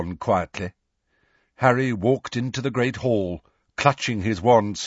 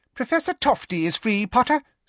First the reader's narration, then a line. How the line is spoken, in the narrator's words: squeaked Professor Flitwick